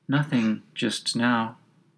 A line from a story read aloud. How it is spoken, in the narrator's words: She answered rather sadly